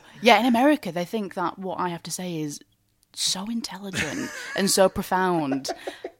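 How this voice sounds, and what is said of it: Northern English Oldham accent. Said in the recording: “with your accent, I saw an interview and the man went, oh, your accent is so lovely. And you went, it's from Oldham. You said, it's common.”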